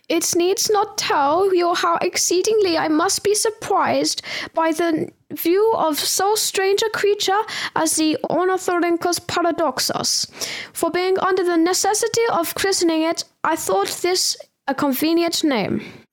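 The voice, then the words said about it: Put-on German accent. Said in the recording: “How's your German accent?”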